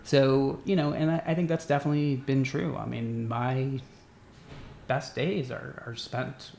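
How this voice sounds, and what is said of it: Emotional, slightly choked voice. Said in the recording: “Getting a little emotional.”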